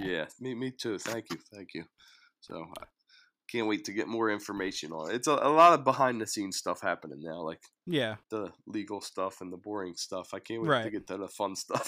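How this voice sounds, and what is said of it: Hoarse, strained voice. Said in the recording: “sorry again for my voice. I'm losing my voice.”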